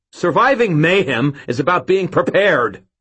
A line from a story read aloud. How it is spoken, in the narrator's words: I shouted back